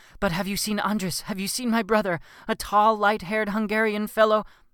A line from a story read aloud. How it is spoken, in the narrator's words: Frantically, I ask him